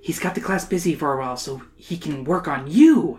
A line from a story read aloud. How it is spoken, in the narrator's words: Emily whispers